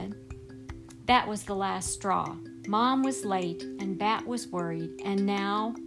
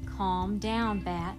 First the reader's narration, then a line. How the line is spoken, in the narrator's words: Mom said in her soothing voice, the one she saved for when Bat was getting really upset